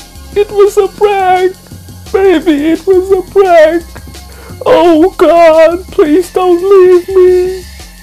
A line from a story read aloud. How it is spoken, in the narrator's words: continued sobbing